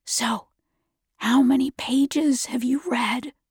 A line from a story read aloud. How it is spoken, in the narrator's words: his voice whispered behind me